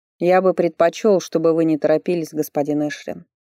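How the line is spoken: Cold. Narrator (Russian): холодно сказал Фарлей

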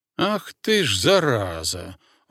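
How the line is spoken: Breathed out. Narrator (Russian): выдохнул

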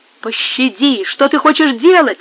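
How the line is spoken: Desperate shout. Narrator (Russian): в отчаянии закричал Альмендра

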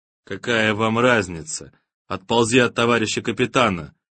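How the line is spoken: Quiet speech. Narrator (Russian): негромко сказал Боря

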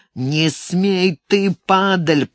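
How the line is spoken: Growl. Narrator (Russian): прорычал кто-то

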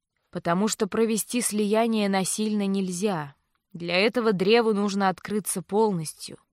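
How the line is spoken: Plain. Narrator (Russian): ответил Винс

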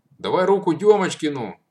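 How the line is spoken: Shout. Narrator (Russian): крикнул Матвей

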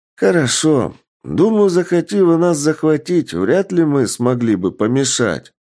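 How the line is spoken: Loud sigh, resigned. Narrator (Russian): громко вздохнув, сказал мужчина, что оказался начальником станции

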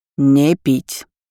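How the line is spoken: Stern captain. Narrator (Russian): строго сказал капитан своим мальчишкам

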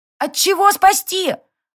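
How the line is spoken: Loud question from behind. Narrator (Russian): громко поинтересовалась Сари из-за спины родственника

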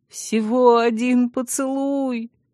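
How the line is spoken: Pitiful whimper. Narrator (Russian): жалостливо прохныкал Вильгельм

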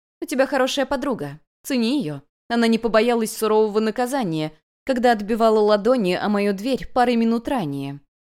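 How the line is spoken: Sharp. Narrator (Russian): резко ответила той госпожа Азалия

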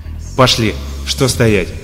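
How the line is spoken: Sharp speech. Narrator (Russian): резко произнес он

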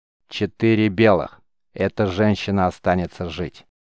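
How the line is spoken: Solemn proclamation. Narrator (Russian): торжественно возвестил он

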